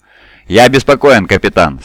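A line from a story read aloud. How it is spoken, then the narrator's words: Plain. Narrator (Russian): сказал Вилуш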